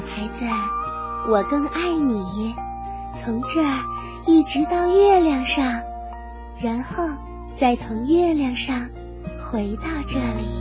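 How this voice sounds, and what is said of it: Soft, quiet storytelling voice. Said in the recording (Chinese): “小声”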